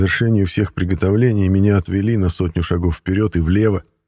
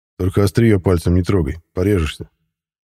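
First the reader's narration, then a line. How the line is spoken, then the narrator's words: Amused snort. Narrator (Russian): хмыкнул Матвей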